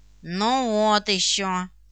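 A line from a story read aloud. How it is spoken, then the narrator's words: Through gritted teeth. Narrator (Russian): процедил Жорж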